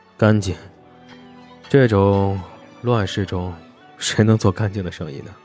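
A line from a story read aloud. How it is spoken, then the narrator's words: Soft sigh. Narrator (Chinese): 沈梦生轻叹口气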